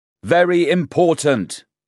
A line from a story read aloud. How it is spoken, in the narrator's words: he shouted